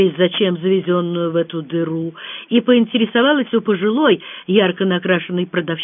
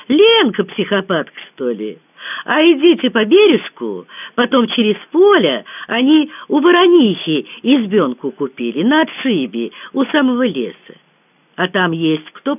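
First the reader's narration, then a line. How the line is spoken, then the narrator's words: Sudden joyful exclamation. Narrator (Russian): ее неожиданно осенило, и она радостно воскликнула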